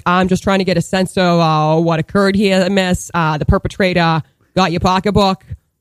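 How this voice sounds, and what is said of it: Put-on Boston accent. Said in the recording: “they're, like, so friggin' mass ... I love the Boston accent so much”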